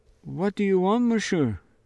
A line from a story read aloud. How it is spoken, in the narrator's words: Impossible to keep her voice from trembling